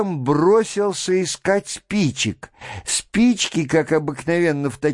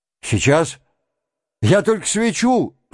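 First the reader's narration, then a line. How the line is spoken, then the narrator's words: Weak shout. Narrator (Russian): слабо прокричал Шатов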